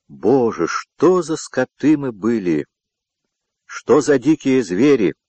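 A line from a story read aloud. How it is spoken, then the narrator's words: Anguished groan. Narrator (Russian): простонал Мартин, вспоминая подробности этого боя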